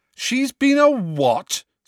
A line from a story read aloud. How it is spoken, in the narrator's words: said Harry loudly